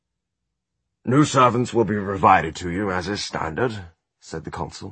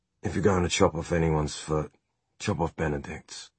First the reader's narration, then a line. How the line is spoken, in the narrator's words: Will muttered